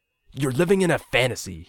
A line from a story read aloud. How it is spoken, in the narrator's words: he spat